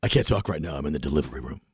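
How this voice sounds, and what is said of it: Imitates another person's voice. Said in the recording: “I do Tom on the phone ... Here's Tom on the phone ... nailed it”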